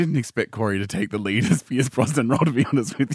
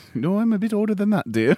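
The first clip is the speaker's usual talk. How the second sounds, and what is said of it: Mrs. Doubtfire impression, old-lady voice. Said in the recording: “That's a pretty weird accent you got there,... lady... this whole changing accents, what's going on here?... all of a sudden, I'm doing Doubtfire.”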